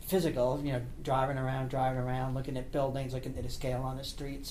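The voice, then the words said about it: East Coast, Baltimore-like accent. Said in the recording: “Can you tell by that accent? ... I thought it was a Baltimore accent”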